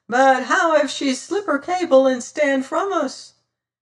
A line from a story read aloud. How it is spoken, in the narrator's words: piped smiling Sam